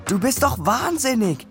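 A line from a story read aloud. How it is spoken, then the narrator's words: Calling up from below. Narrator (German): rief von unten zu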